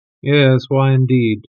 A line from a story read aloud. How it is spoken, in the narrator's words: murmured Holmes